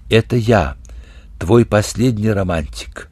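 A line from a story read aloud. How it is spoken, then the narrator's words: Mysterious, sad, over phone. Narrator (Russian): Тяготясь отлучением, Алёхин говорил в трубку таинственно и печально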